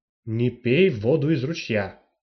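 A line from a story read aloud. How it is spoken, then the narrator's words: Stern. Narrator (Russian): строго сказала Юджиния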